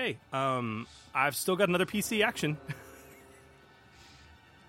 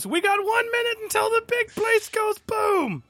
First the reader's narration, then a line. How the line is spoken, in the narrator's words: Hugo screams